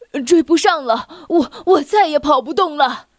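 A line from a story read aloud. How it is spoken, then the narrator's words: Panting donkey. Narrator (Chinese): 驴子喘着粗气说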